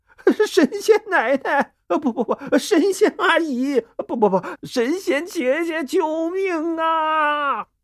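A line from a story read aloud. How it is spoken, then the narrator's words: Breathless shouting. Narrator (Chinese): 几个官兵气喘吁吁的 嘴里还不停的喊着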